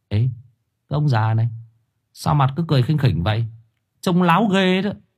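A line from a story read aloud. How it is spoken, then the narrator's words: Muttered cursing. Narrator (Vietnamese): Thằng Quý miệng lẩm bẩm chửi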